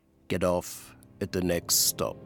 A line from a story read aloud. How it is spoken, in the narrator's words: a young man says quietly